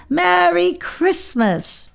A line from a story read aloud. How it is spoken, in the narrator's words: He shouted the Polar Express